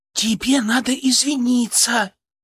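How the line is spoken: Loud whisper, young girl. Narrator (Russian): громким шепотом подсказала кудрявенькая брюнеточка

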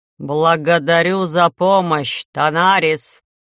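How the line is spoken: Loud, even, coldly angry. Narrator (Russian): Громко и чрезвычайно ровно, уверенно, выражением особой злости

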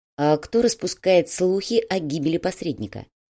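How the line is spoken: Plain question. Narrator (Russian): спросил полковник

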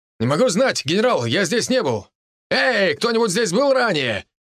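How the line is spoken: Shouted. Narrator (Russian): крикнул солдат другим солдатам

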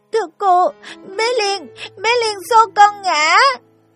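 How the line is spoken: Sobbing breathless child. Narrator (Vietnamese): Em nước mắt giàn giụa, hổn hển, nghẹn ngào nói

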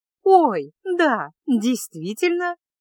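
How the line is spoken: Cheerful ringing exclamation. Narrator (Russian): весело и звонко воскликнула принцесса

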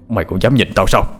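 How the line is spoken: Loud shout. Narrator (Vietnamese): Thái quát lớn

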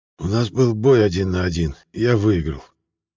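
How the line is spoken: Toneless whisper. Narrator (Russian): шепчу бесцветным голосом

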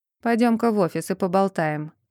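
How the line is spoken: Stern tone. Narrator (Russian): строгим тоном произнес

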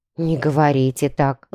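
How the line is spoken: Sighing. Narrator (Russian): вздохнула служанка

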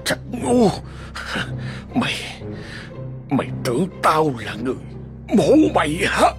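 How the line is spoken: Harsh growl. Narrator (Vietnamese): Trung gằn giọng

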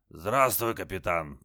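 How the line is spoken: Hoarse rasp. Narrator (Russian): прохрипел Джаз

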